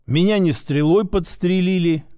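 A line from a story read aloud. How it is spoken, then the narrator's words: Grumbled mutter. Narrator (Russian): буркнул я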